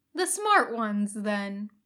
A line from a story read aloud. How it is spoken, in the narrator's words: Kakashi said, dryly amused